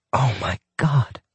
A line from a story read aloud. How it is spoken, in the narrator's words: she breathed